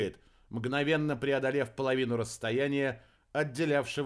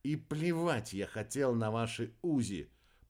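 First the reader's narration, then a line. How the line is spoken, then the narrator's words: Muttering. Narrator (Russian): пробормотал Рикки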